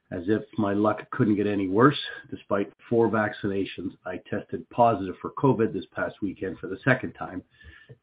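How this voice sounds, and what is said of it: Rough, hoarse voice. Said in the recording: “my voice sounds a little rough this morning”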